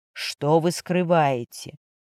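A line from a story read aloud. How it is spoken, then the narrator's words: Calm question. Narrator (Russian): Матвей спокойно спросил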